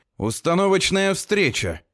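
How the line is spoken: Loud. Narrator (Russian): громко говорю я

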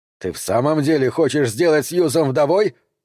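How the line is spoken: Bark. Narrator (Russian): рявкнул Сэм

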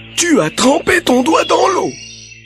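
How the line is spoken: Grumbled. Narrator (French): grommela

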